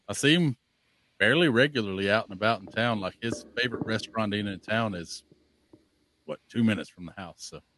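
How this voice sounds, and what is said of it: Southern Alabama accent. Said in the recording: “this guy does not sound like a Minnesota guy ... Was raised kind of in the northeast corner of Alabama, so. Yeah, this accent is earned.”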